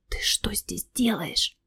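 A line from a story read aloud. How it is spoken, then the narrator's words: Whispered question. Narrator (Russian): Тот шепотом спросил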